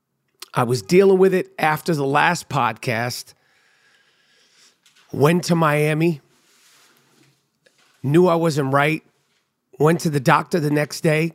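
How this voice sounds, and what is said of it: Strained, rough-sounding voice. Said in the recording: “As you can tell, my voice is a little fucked up. ... As you could hear, my voice is just a little strained.”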